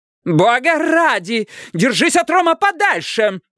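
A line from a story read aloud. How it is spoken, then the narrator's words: Yelled. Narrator (Russian): заорала Лукреция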